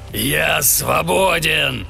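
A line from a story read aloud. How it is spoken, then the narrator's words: Surprisingly loud exclamation. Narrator (Russian): воскликнул таким громким голосом, какого трудно было ожидать от тщедушного существа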